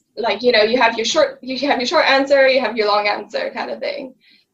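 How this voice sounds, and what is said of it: French and British mixed accent. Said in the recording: “I'm French and British, I lived abroad, hence my accent”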